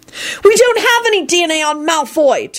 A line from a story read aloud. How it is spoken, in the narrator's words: Tim shouted, frustrated